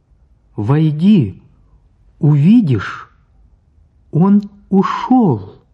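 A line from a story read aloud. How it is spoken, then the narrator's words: Loud. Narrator (Russian): Оля сказала громко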